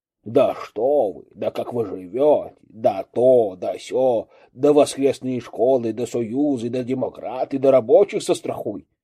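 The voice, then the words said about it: Mocking imitation of someone's speech. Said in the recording (Russian): “Передразнивая.”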